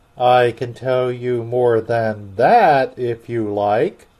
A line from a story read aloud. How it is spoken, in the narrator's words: said the Gryphon